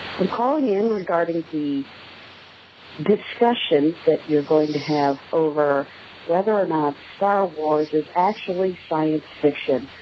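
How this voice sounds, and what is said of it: Slightly congested, stuffy voice. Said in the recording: “Sorry, I have a bit of a cold.”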